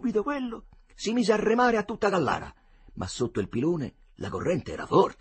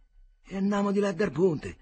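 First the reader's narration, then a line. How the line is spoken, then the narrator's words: Plain. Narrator (Italian): disse Agnolo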